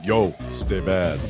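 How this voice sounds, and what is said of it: Sylvester Stallone impression. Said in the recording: “you say it with the Sylvester Stallone accent.”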